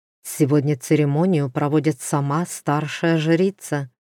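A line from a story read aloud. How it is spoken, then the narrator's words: Tense whisper. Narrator (Russian): шепнул напряженный Доридан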